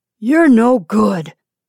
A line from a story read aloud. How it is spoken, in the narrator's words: he said roughly